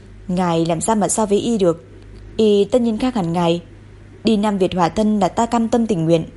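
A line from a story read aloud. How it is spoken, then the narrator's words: Soft laughing speech. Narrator (Vietnamese): Lệnh Viêm khẽ cười nói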